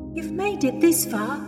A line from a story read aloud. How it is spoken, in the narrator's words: Louise said, almost pleading